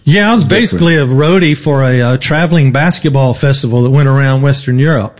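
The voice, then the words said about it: Southern American drawl. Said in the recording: “hear that drawl ... the American South ... Maybe it was my accent.”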